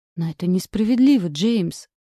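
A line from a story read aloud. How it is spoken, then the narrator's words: Resigned sigh. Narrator (Russian): вздохнула обреченно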